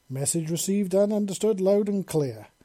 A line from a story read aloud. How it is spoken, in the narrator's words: Eve said with a chuckle